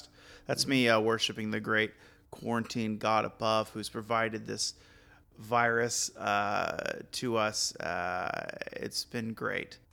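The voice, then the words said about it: Sarcastic delivery. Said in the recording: “That was sarcasm”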